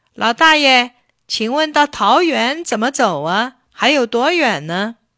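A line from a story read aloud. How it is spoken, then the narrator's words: Calling out. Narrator (Chinese): 他喊道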